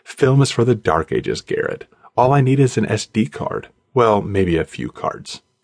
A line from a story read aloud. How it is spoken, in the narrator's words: Ariel said